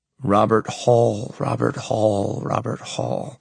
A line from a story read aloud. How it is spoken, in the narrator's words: I mutter to myself, trying to remember